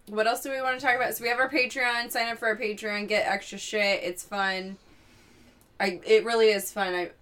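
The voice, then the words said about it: Tired, monotone voice. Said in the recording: “I'm very tired, so that's why my voice is so, like, monotone.”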